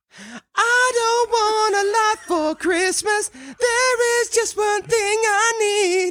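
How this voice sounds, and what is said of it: Singing in a high falsetto. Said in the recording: “my high voice ... Do a couple of lines in your high voice ... You're like Barry Gibb over there with your falsetto”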